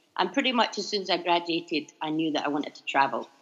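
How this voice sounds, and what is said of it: Scottish accent. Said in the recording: “you'll probably tell I'm from Scotland”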